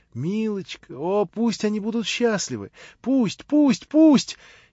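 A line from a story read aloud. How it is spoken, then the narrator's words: Sudden sobbing. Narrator (Russian): слезы рыдания вдруг разом так и хлынули из ее сердца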